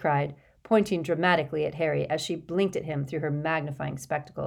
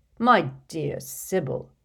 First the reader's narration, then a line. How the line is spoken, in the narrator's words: said Dumbledore in a slightly exasperated voice